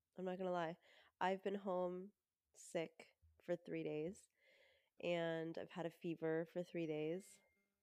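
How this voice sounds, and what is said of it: Congested, stuffed-up voice. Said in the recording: “If you can already tell in my voice, I'm a little stuffed up.”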